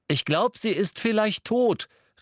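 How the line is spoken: Cheerful call. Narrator (German): rief er vergnügt

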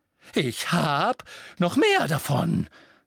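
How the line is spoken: Shrieked. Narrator (German): kreischte Professor Trelawney

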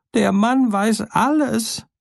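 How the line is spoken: Frightened cry. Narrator (German): der im Ofen voller Schrecken rief

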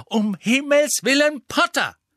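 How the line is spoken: Angry. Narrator (German): sagte Professor McGonagall und rückte wütend ihre Brille zurecht

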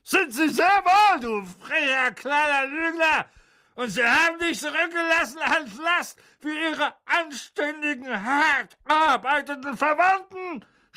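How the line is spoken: Furious screaming. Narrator (German): schrie Tante Magda und schwoll vor Zorn an

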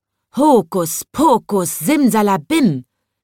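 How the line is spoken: Calling out. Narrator (German): rief

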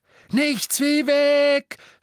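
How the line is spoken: Shouting. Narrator (German): schrie Harry

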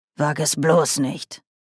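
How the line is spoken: Said sharply. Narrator (German): sagte Oma scharf

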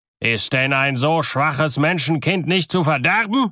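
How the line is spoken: Angry, to himself. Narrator (German): sprach er zornig zu sich selbst

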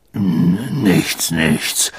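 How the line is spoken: Muttered. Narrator (German): murmelte Hagrid

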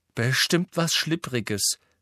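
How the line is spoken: Half-aloud. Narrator (German): sagte Hermine halblaut

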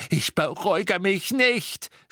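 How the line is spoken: Screaming. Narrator (German): schrie sie

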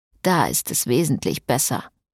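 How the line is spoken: Grumbling. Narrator (German): brummte Frederik

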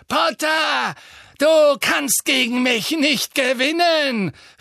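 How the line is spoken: Calling out. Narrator (German): rief sie

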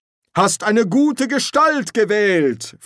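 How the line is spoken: Continued loudly. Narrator (German): fuhr laut fort

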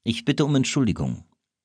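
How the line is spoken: Plain. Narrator (German): sagte Disraeli

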